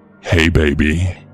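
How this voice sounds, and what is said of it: Deep male voice. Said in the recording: “It was a deep voice, clearly from a man”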